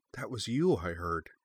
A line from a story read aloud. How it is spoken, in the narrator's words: murmured softly